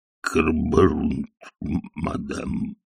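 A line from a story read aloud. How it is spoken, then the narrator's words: Muttered. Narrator (Russian): пробормотал он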